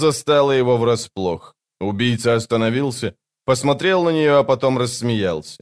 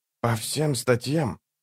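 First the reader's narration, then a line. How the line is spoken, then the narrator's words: Quiet. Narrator (Russian): тихо проговорил он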